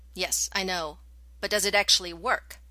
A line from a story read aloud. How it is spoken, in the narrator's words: made her voice polite and firm